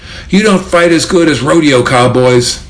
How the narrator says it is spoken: getting stomped yelled up at his attackers

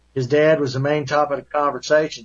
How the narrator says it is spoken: said Bazar

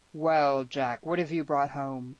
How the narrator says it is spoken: rumbled

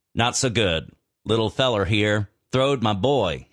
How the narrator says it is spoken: he said

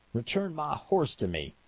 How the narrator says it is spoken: Vernon hollered

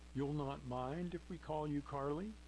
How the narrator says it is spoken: She asked eagerly

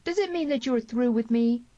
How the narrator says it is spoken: cried Tierney

